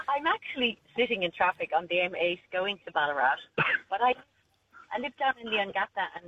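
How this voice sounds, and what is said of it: Irish accent. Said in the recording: “Lovely to hear your accent. ... lovely to hear an Irish accent.”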